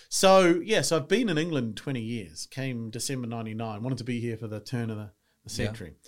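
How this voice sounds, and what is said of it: New Zealand accent. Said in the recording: “I'm from New Zealand. You can tell by the accent, which I've been here 20 years, though, but it doesn't seem to dissipate.”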